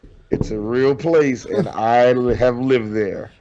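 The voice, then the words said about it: Impression of another host. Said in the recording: “I was just doing my Ben impression.”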